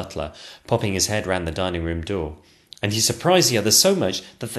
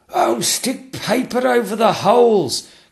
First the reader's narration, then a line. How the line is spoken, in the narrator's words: cried the Lord Chamberlain